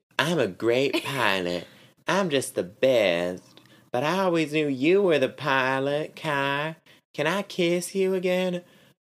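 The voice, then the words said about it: Put-on Southern accent, character voice. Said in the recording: “Indy has a southern accent in my head”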